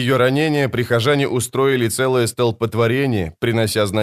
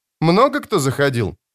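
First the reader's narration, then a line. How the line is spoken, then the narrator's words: Forced cheerful question. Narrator (Russian): спросила Ноно, пытаясь говорить бодро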